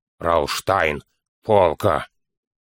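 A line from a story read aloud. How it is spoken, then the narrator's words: Muffled dwarf voice. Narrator (Russian): глухо ответил гном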